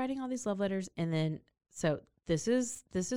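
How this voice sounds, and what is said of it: Usual voice. Nothing is said of it.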